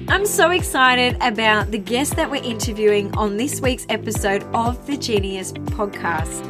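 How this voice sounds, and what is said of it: Nasal, congested voice. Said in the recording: “You'll have to excuse my voice this week... all of us are walking around with stuffy noses... my voice is a little nasally”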